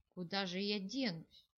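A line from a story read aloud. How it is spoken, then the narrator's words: Heavy sigh. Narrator (Russian): тяжело вздохнул Кенрик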